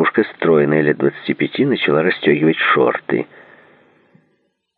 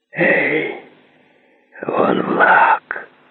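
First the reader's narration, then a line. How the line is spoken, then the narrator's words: Whisper. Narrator (Russian): прошептал он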